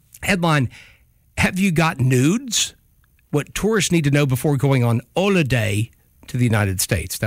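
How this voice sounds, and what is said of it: Put-on Cockney English accent. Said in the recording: “That was my Cockney English accent.”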